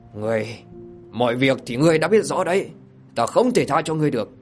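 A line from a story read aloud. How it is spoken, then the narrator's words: Angry. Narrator (Vietnamese): Độc Vương Chi Vương bị Đoạt Hồn thiếu nữ vạch trần âm mưu, bất giác giận dữ mà nói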